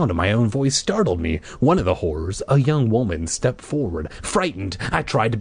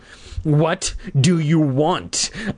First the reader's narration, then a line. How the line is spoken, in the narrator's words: repeated in a trembling voice